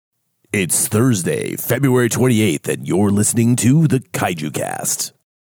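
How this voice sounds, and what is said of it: Sick-sounding radio voice. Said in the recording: “I'm a little bit under the weather. I get a really great radio voice.”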